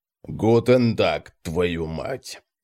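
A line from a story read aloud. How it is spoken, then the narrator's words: Grumbling. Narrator (Russian): ворчал он, ковыляя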